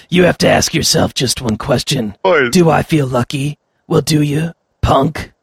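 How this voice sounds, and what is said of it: Gravelly imitation of a film star. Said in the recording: “my Clint Eastwood ... one's more gravelly ... that sounds like Batman doing a Clint Eastwood impression ... It sounds like Batman's constipated as well”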